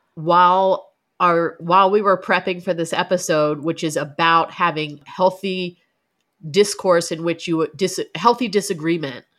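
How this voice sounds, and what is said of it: Congested, stuffy voice. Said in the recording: “I sound like a congested toddler”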